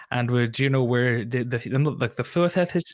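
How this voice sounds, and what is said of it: Imitates another person's accent. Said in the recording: “I was trying to do a Nicola accent there.”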